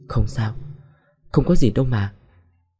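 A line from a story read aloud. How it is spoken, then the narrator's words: Muttered. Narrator (Vietnamese): Nhung nằm xuống lẩm bẩm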